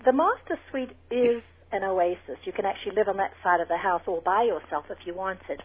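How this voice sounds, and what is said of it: South African accent. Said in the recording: “with that South African accent that you have, it sounded even more delightful”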